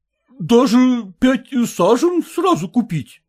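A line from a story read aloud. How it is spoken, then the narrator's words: Exclaiming. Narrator (Russian): воскликнул съемщик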